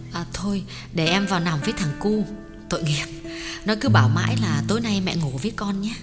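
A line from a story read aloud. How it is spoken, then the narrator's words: Gentle, soft. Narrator (Vietnamese): Thuyết nhỏ nhẹ bảo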